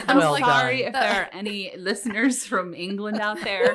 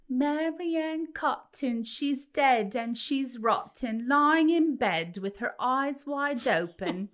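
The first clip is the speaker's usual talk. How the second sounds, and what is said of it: Bad put-on childlike Cockney accent. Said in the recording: “That was my best childlike English accent. Like, it was terrible. ... The best version of an American tries to do a Cockney accent ... I know it was bad.”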